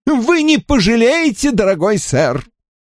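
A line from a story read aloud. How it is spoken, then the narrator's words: Exclaiming. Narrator (Russian): воскликнул Дролайт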